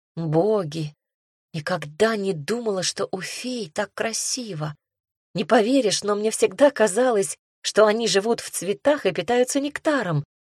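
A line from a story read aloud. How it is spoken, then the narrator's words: Breathless admiring. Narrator (Russian): выдохнула я восхищенно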